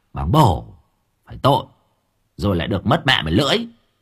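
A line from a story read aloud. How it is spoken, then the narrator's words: Snapping scold. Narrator (Vietnamese): Thằng Cường nạt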